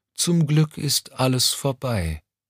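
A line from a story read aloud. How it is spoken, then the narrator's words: Tired reply. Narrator (German): entgegnete Mommsen müde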